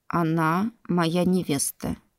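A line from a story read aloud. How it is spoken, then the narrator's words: Quiet. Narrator (Russian): тихо произнес Гард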